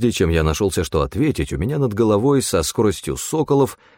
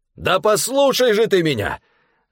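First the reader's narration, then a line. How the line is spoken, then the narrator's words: Yelling over loud noise. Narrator (Russian): заорал Стефан, перекрывая грохот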